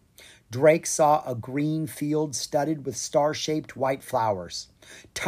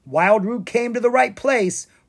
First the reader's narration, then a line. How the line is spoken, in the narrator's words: Rory cried